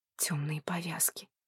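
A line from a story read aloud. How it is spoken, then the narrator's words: Quiet whisper. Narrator (Russian): прошептала Ли Лань тихим голосом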